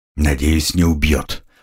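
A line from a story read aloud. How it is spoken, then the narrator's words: Dry-lipped mutter. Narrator (Russian): пробормотал я пересохшими губами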